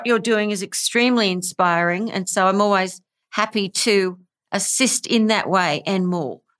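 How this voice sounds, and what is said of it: Australian accent. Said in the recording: “she's got a much more unique and amazing accent, which sounds like from Australia”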